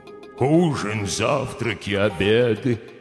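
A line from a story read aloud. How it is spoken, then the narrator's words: Deep bass voice. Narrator (Russian): Басом провонял сыр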